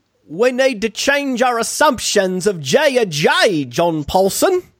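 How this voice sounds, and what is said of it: Put-on British accent. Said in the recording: “quite the British accent... It's almost like out of Oliver, like that sort of accent.”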